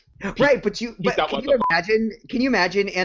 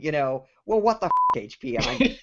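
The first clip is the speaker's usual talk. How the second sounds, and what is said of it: Poor imitation of British accent. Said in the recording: “in that wonderful British accent that Jez has ... I'm totally butchering that accent.”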